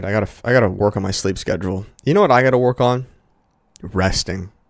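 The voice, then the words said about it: Tired-sounding voice. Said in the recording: “I sound a little tired in this, guys. I am a little tired.”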